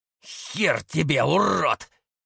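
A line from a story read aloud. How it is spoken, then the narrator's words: Silent inner growl. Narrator (Russian): мысленно прорычал поляк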